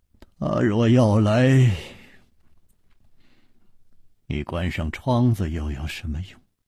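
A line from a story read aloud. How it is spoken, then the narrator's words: Sighing. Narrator (Chinese): 楚留香又叹道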